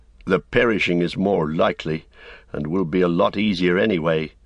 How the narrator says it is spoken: he said grimly to himself

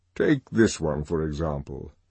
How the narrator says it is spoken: he said, and in his deep voice

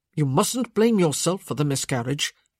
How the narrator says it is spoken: he said fiercely

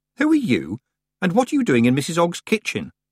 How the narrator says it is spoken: Tiffany said sharply

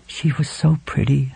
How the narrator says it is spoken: Helen murmured

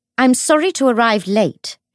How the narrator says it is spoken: she said, in the practiced tone of someone used to pitching her voice loudly to be heard over a room full of men

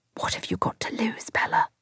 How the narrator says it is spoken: I whispered to myself

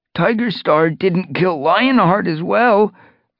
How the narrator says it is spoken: asked Bramblepaw, his voice quavering

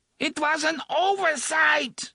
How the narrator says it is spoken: the woman screamed

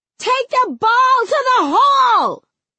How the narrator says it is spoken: She hollers to the girls

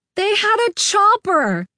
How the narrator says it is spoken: the gas man yelled

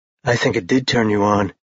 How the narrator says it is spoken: he said huskily

